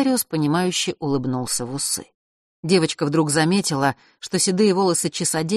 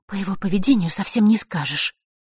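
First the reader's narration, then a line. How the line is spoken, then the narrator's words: Annoyed muttering. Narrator (Russian): пробормотала Василиса, еще раз досадованная их с Фэшем размолвкой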